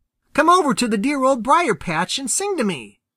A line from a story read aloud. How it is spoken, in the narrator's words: cried Peter